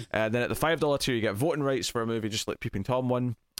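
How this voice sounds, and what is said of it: Speaking very quickly. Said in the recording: “my voice is going, having said all that very quickly”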